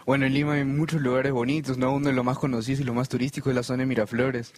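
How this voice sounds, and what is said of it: Peruvian Spanish accent. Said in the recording (Spanish): “ese acento me parece que es de un país que yo conozco ... Yo vengo de Lima, Perú.”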